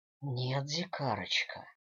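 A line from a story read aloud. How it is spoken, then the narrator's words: Smirking hoarse whisper. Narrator (Russian): ухмыльнулся я и перешел на хриплый шепот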